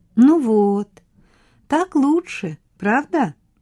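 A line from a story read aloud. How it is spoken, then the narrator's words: Gentle, affectionate. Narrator (Russian): ласково сказала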